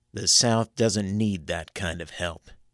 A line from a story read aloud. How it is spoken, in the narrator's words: said flatly